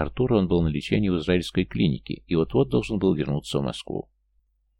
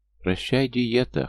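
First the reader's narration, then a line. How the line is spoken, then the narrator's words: Chuckling with full mouth. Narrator (Russian): хохотнула с набитым ртом Лера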